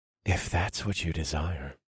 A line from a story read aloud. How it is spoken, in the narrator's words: I whispered into her ear